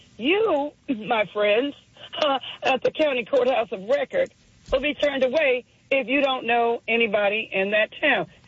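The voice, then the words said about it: Southern American accent. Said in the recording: “you heard my accent, southern”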